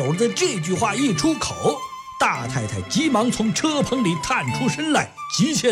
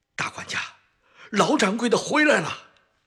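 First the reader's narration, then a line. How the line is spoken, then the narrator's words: Hurried. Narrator (Chinese): 魏楼急忙说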